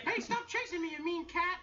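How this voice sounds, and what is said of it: Cartoon mouse voice, Jerry. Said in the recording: “I do a few cartoon voices myself ... little mouse from Tom and Jerry”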